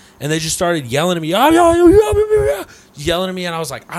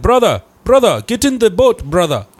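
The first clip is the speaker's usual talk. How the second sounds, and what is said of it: Put-on foreign accent. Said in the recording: “Why do you use that accent? ... Because that's what he sounded like.”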